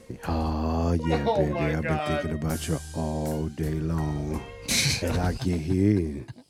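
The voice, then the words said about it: Low, quiet seductive voice. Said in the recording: “you got to do it in your sexy voice ... You're just lowering your voice to a low. You're just being quiet.”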